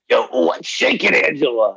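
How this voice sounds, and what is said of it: Impression of Robert Brusky. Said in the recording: “do a Brusky impersonation... I think that's about as good as I can get.”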